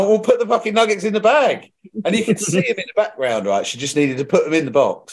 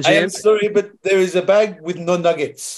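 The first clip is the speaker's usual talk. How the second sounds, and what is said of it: Put-on French accent. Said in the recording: “What accent did you have? ... She was French.”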